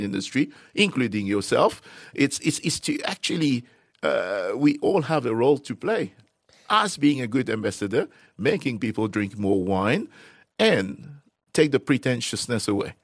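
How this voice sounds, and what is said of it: Suave Mauritian French accent. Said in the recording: “your beautiful Mauritian French accent ... Here's this suave guy selling me wine. You could say anything, and it just sounds amazing.”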